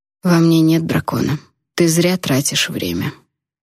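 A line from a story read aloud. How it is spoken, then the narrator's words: Calm reminder. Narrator (Russian): спокойно напомнил Алит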